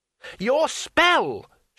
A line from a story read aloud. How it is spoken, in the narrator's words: shouted Two Flower